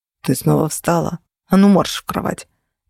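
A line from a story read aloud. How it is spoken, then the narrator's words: Hissed. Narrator (Russian): Прошипели мне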